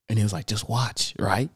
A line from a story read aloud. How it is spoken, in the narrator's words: Like whispering and shit, like it's a theater